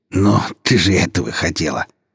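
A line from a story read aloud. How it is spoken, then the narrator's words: Scoffing snort. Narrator (Russian): фыркнул Черкизов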